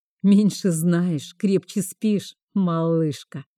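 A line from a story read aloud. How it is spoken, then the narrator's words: Laughing, unbothered. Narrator (Russian): рассмеялся Вейнард, ничуть не задетый моим тоном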